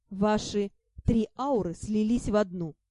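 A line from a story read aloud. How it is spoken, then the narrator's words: Serious voice. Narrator (Russian): уже серьезным голосом произнес маг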